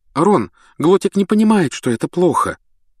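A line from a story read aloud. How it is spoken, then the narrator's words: Trembling, defensive. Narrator (Russian): оправдывалась Гермиона дрожащим голосом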